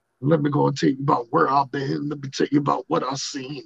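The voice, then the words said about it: Imitates another person's voice. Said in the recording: “my junkyard dog impersonation ... sometimes you got to bring out that junkyard dog talking”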